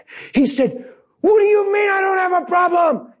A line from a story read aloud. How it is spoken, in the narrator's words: he screamed at the top of his lungs